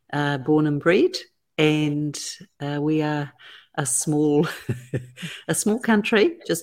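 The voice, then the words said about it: New Zealand accent. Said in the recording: “you obviously have an accent ... I'm from New Zealand”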